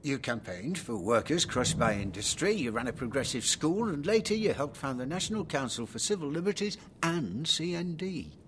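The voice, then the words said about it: Derbyshire English regional accent. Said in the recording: “It's the accent. D.H. Lawrence. Do you come from Nottinghamshire? ... No, Derbyshire, but close ... I was picked for my accent.”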